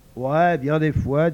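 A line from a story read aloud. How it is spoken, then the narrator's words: Plain. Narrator (French): dit Huck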